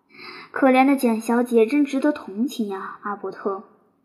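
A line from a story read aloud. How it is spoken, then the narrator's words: Sighing. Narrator (Chinese): 贝西叹息道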